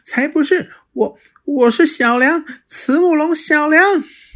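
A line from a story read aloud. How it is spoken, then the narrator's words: Panting heavily. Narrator (Chinese): 霸王龙喘着粗气说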